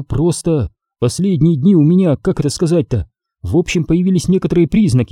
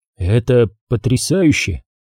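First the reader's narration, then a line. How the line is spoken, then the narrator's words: Finally uttered. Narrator (Russian): наконец вымолвил я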